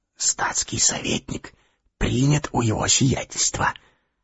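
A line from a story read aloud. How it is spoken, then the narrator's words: Quick whisper. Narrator (Russian): он тотчас же шептал Ане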